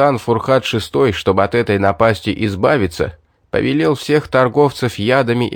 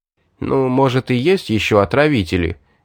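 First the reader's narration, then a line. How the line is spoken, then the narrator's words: Uncertain, hesitant. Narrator (Russian): неуверенно сказал Сурхат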